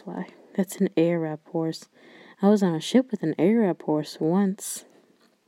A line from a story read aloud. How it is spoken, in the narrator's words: One old man said quietly to us